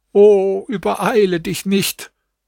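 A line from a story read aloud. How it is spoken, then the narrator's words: Pleading. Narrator (German): Sie flehte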